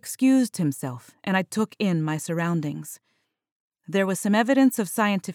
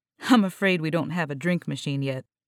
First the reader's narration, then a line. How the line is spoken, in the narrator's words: noted with a light chuckle